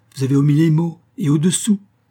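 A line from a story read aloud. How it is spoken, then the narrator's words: Exclaimed. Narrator (French): s'écria-t-il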